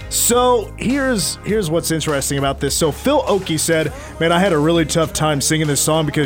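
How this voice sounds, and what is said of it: Usual voice. Nothing is said of it.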